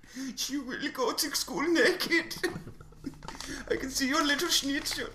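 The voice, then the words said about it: Bad put-on German accent. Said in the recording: “that was a horrible German accent.”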